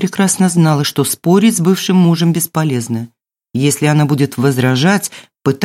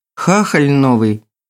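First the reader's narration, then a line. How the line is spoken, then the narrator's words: Sighing. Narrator (Russian): Елена вздохнула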